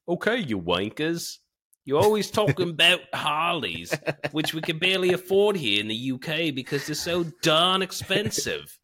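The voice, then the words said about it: Put-on British accent drifting Australian. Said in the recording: “I should probably do this all in a British accent ... I think I turned into an Australian halfway through there.”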